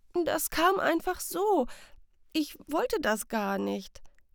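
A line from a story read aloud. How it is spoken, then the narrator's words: Confused stammering. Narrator (German): ist verwirrt, stammelt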